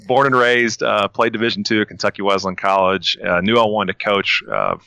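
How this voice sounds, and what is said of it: Thick Kentucky accent. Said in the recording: “thick, hick Kentucky accent”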